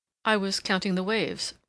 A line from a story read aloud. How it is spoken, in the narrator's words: replied Amory gravely